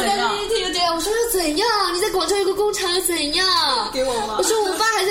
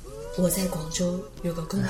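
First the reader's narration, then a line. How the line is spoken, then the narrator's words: Suddenly lowered voice. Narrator (Chinese): 突然压低声音跟我说了一句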